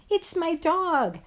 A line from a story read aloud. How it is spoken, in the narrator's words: I yelled